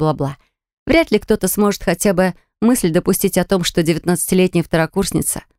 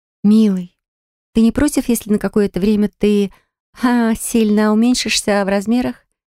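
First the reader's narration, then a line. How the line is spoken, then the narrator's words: Soft cooing. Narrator (Russian): Мягко проворковала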